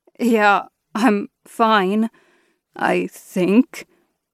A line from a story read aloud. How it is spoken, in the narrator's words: He coughed and sputtered, finally managing to say